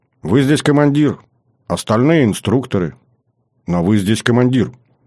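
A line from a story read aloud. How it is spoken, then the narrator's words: Calm, unservile young woman. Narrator (Russian): Девушка спокойно, абсолютно без подобострастия ответила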